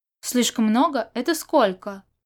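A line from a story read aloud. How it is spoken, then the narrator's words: Exclaiming. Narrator (Russian): воскликнул Сюэ Джин Юн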